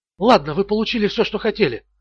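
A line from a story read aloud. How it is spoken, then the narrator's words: Quiet. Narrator (Russian): тихо сказала она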